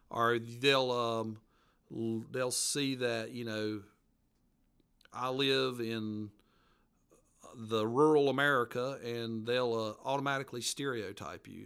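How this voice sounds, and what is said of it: Appalachian mountain accent. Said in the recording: “you'll hear my mountain accent ... the mountain folks, Appalachian culture”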